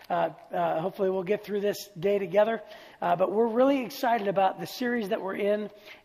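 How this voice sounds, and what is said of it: Slightly raspy voice. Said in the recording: “I've got a little bit of a raspy voice.”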